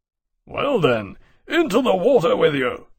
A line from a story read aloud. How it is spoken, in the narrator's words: Barclay said, gruffly